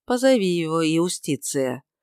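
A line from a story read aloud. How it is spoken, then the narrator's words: Calm. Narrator (Russian): сказал Пилат, спокойно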